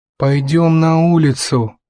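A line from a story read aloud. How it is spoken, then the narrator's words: Muttering from a corner. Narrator (Russian): пробурчал из своего угла Натан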